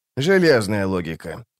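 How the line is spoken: Calm agreement. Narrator (Russian): спокойно согласился он

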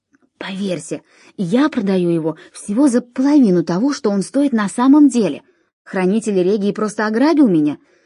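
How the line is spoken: Loud whisper. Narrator (Russian): Почетный гражданин Ромея громко прошептал

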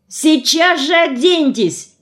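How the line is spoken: Yelled. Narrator (Russian): заорала

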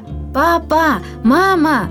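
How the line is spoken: Joyful shout. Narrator (Russian): радостно выкрикнула она

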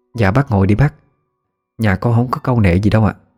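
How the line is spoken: Smiling woman's speech. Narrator (Vietnamese): chị mỉm cười nói

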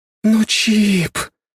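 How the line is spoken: Breathed out. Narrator (Russian): выдохнула Аня

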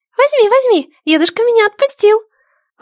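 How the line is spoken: Joyful squeak. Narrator (Russian): Радостно пропищал голосочек

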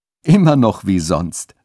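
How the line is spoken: Laughing. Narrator (German): sagte Köstein lachend

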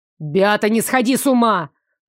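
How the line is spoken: Barking, snapping. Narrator (Russian): рявкнул на меня Нико

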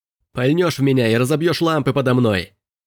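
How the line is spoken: Shouted. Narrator (Russian): выкрикнул Робби

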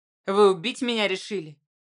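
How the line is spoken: Irritated question. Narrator (Russian): раздраженно спросил Строганов

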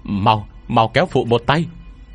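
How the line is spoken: Loud shout. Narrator (Vietnamese): Tôi hét lớn

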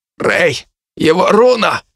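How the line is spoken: Hoarse, just regained consciousness. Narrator (Russian): прохрипел с пола очнувшись Дарт

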